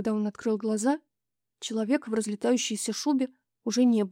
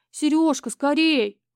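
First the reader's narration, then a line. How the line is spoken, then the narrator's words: Shout. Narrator (Russian): крикнула она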